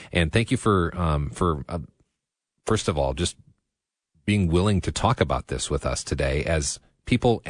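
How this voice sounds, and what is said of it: Somber, quiet speaking voice. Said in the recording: “my voice is a little bit somber because we're kind of in this quiet space”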